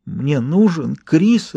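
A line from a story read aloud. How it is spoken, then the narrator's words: Sobbing mumble. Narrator (Russian): рыдая, пробормотала Энн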